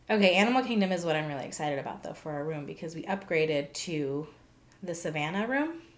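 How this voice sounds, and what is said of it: Voice sounds off, strained. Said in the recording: “my voice is still weird”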